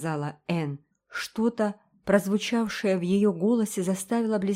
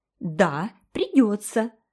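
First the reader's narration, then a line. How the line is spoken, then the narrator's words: Squeal. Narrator (Russian): взвизгнула Джеральдина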